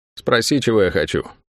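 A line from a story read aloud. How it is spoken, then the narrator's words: Dry demanding woman. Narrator (Russian): сухо потребовала женщина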